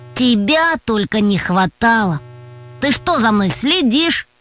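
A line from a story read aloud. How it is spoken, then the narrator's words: Displeased grumble. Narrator (Russian): недовольно пробурчал Антон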